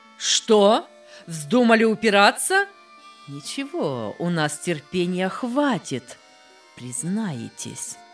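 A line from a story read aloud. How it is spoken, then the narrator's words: Angry raised-voice shout. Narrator (Russian): Следователь повысил голос, рассердился и крикнул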